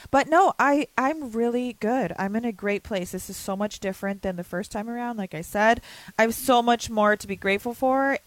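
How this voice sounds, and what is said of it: Hoarse, crackly voice. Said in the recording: “My voice is a little coarse, I think, from, like, my, you know, when I do my pre-fight yell... my vocals weren't warmed up for that... if I sound emotional, it's really mostly just because my voice is, like, crackly”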